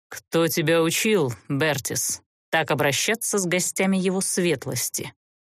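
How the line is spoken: Icy serpent inquiry. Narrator (Russian): Ледяным тоном осведомился змей

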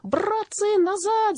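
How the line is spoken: Young mosquito wailing. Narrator (Russian): завопил молодой комар

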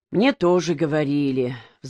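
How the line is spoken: Sighing. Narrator (Russian): вздохнул Колба

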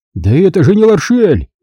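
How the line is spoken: Shout. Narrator (Russian): выкрикнул он

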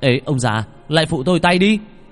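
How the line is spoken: Shouting. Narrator (Vietnamese): Bằng la lên

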